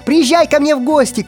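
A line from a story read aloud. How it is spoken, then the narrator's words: Shouted reply. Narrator (Russian): крикнул ему в ответ Гарри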